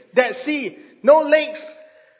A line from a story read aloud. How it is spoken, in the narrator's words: shouted again